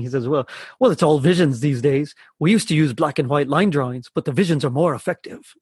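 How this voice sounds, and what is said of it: Attempted Glaswegian Scottish accent. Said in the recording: “his accent, and I'm going to fail miserably here ... Spot on accent there. ... I thought I was in Glasgow for a second there. ... In the garbles”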